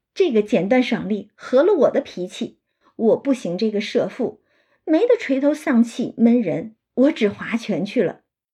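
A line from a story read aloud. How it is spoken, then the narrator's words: Laughing. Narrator (Chinese): 湘云就笑说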